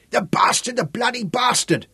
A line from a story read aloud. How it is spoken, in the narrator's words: the same voice swore angrily